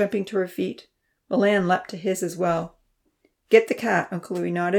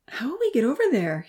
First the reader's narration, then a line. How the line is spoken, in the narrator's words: He asked anxiously